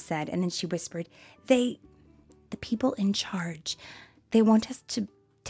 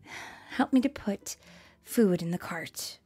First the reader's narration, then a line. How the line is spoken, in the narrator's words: Mom sighed